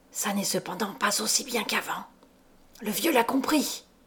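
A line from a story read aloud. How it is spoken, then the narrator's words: Hissing voice. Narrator (French): disait Coppelius d'une voix sifflante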